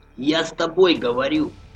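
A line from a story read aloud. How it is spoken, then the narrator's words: Hoarse croaking. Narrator (Russian): хриплое карканье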